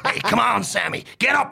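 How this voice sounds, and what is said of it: Over-the-top put-on American accent. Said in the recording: “give us your American accent ... Just be over the top ... Real rubbish”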